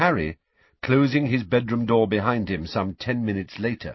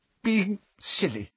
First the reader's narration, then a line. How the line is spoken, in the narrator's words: she muttered again